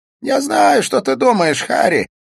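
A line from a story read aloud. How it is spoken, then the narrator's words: Laughing. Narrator (Russian): засмеялся Смит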